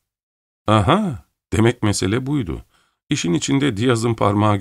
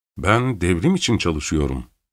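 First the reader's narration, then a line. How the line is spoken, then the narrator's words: Plain. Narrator (Turkish): dedi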